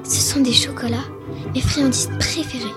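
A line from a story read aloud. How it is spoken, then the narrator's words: Whispered. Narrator (French): chuchota-t-elle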